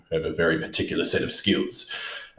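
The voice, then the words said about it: Bad imitation of a gravelly actor voice. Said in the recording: “I feel like Liam Neeson ... That was a horrendous accent.”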